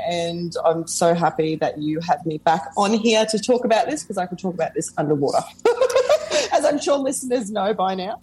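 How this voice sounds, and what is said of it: Australian accent. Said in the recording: “I live in Australia. So those of you who are wondering, what's this crazy accent?”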